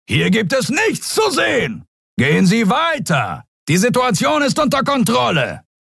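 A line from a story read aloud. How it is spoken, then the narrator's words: Bellowing at crowd. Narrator (German): zu der gaffenden Menge brüllte er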